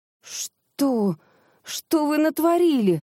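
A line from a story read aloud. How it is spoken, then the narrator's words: Moan. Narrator (Russian): простонала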